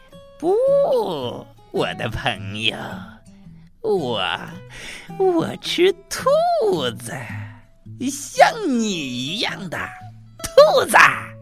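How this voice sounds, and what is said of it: Harsh, grating character voice. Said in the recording (Chinese): “杰西蒂爬到了达利毕的身旁。他用刺耳的声音说”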